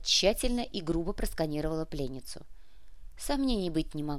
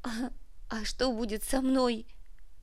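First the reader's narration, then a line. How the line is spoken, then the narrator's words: Sobbed, female. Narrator (Russian): всхлипнула Фима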